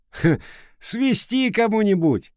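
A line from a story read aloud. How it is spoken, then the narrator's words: Loud guffaw. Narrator (Russian): захохотал рыжий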